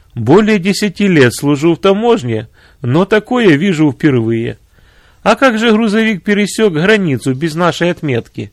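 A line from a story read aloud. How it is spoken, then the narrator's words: Said after laughing. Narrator (Russian): Отсмеявшись, он сказал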